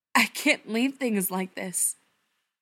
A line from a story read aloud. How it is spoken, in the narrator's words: says, his voice choked